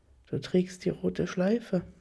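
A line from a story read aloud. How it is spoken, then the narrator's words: Quiet remark. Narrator (German): bemerkt er leise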